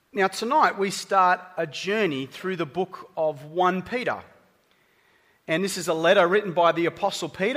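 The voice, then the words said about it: Australian accent. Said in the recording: “because of my accent. Apparently, I have an accent.”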